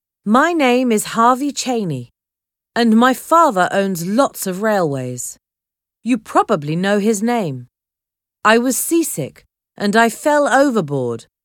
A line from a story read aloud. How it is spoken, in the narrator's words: Harvey said